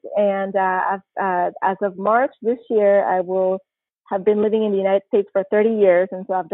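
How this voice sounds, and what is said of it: Panamanian-accented English. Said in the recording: “with my accent, sometimes people are like, oh, and where is that accent from? ... I'm originally from Panama”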